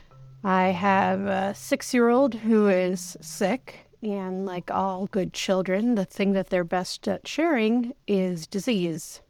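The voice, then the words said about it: Sick, under-the-weather voice. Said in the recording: “if you can't tell from my voice, I'm under the weather right now.”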